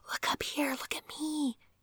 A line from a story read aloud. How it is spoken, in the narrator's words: Francis whispered